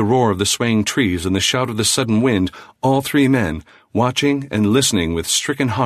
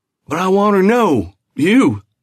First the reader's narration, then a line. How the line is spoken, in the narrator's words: shrieked the guide